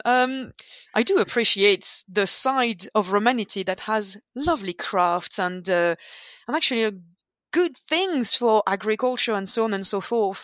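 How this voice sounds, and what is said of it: French accent. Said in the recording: “At your core, you're a Gaul... I can't hide the accent”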